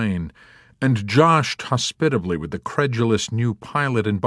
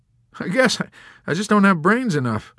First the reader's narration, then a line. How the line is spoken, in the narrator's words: McWatt laughed sheepishly